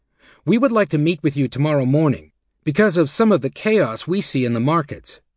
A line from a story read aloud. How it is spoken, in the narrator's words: she announced sternly